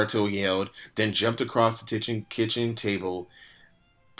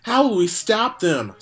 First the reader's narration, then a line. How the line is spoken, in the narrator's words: Sakura yelled